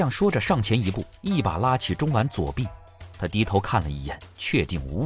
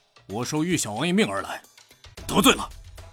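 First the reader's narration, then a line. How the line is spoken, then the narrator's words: Cold voice. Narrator (Chinese): 家将冷声道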